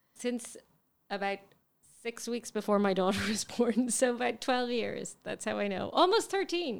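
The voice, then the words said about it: Irish accent. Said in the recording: “She really gets away with that accent ... So you were out of Ireland for a long time. ... But you haven't lost that accent.”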